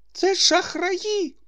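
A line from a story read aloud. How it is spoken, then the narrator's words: Anguished exclamation. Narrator (Ukrainian): вигукнув страждальним голосом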